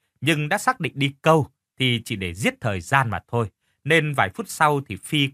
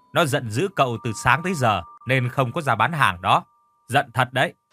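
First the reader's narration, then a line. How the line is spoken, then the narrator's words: Stern woman's voice. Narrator (Vietnamese): Chị chủ quán nghiêm giọng nói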